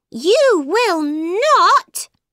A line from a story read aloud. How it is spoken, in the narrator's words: shouted Alice